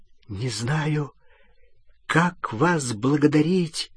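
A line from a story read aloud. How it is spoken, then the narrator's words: Trembling voice. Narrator (Russian): дрожащим голосом сказал Рон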